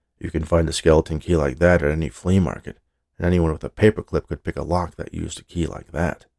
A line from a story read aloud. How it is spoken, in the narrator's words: She could hear the voice of her skeptical partner, Nate, muttering